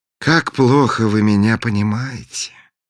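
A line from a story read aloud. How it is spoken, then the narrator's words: Sighing. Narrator (Russian): вздохнул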